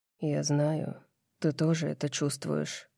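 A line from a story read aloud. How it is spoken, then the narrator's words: Quiet. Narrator (Russian): Тихо произносит он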